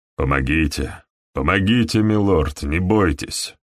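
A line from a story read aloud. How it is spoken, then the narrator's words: Accented English reply. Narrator (Russian): он ответил мне, тоже по-английски, но с акцентом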